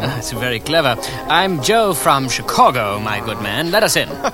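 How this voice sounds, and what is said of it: Put-on French accent. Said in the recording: “Why are you speaking with a French accent? ... We're in disguise.”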